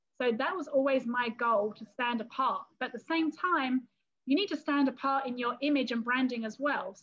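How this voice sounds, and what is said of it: English accent. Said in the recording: “they love my English accent”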